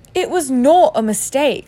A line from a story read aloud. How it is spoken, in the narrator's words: said Harry angrily